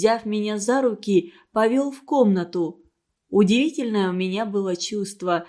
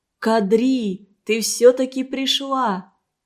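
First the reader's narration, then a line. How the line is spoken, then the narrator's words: Joyful shout. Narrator (Russian): радостно закричал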